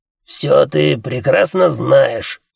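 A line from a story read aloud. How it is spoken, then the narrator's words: Bark. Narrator (Russian): рявкнул Джуфин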